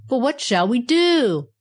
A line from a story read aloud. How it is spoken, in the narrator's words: roared the Andirons excitedly